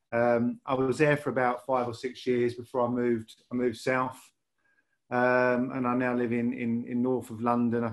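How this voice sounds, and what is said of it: Lancashire accent. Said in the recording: “you can tell by my accent that I grew up in Lancashire”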